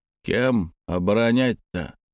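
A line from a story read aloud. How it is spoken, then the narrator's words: Grumbling. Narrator (Russian): начал ворчать тот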